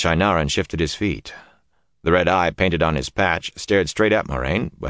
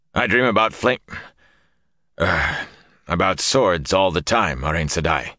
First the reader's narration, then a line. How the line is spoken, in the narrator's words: said stiffly